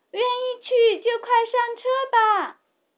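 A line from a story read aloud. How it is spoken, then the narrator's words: Loud shout. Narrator (Chinese): 也大声喊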